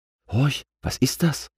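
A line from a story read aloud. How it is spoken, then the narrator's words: Whispered. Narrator (German): flüsterte Lufti A zu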